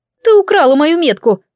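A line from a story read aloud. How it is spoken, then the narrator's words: Shrieking. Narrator (Russian): взвизгнула Джеймина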